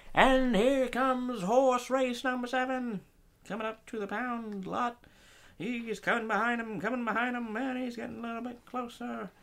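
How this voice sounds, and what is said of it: Horse race announcer voice. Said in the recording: “you have that announcer voice”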